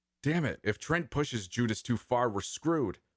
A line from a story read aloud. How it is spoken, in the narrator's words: Cecile shouted